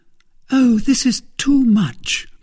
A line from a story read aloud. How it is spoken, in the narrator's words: cried Milady